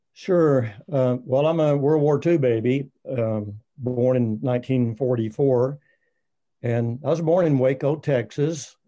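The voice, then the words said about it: Rough, uncleared morning voice. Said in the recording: “sorry about my voice this morning. It takes a while to clear sometimes.”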